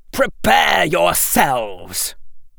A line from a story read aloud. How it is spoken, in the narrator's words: roared Draco at his troops